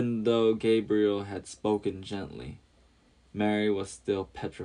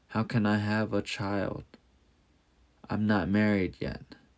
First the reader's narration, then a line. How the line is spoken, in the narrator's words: Nervously whispered